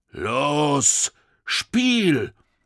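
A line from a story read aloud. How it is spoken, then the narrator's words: Called out, big soldier. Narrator (German): rief der größte der Soldaten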